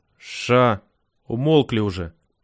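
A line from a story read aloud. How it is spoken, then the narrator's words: Barked. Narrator (Russian): рявкнул Паша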